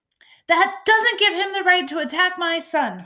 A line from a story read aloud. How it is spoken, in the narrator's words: hollered Mr